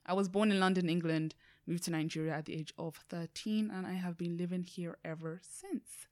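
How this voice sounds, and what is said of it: Distinctive accent. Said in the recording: “what's with the accent? Because that's one of the things that I get a lot.”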